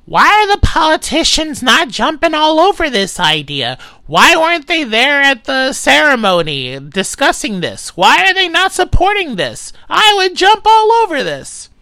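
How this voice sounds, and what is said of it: Imitates another person's voice. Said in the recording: “this is going to be a terrible impression to him”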